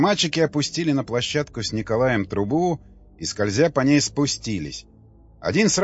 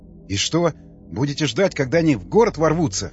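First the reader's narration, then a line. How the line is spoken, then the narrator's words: Angry smirk. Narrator (Russian): Николай зло усмехнулся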